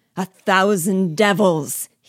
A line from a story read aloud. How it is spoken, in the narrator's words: roared